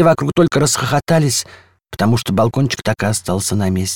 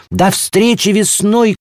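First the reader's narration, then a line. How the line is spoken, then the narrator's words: Shout. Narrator (Russian): крикнул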